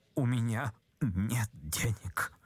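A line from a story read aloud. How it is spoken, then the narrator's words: Muttering. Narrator (Russian): пробормотал, наконец, Ипполит Матвеевич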